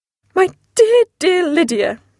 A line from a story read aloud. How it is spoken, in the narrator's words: cried